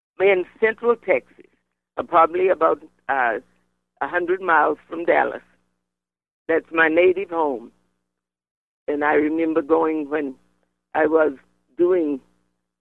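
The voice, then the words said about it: Slight Caribbean-sounding accent. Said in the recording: “You do have a little bit of a Caribbean sort of twang to your voice”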